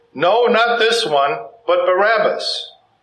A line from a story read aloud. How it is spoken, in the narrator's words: They cried out again